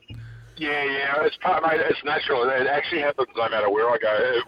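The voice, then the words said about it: Twangy accent. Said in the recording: “a disgusting twang to your voice now ... You sound a bit like Tim Freeburn”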